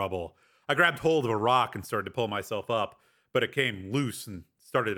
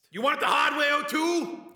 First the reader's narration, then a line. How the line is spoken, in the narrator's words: Cameron shouted from somewhere below me